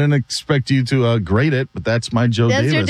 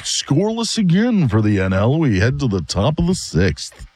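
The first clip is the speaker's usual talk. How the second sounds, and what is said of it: Imitates another person's voice. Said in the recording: “here's my Joe Davis ... That's your Joe Davis? ... I don't get that one ... There's other impersonations you do that are better”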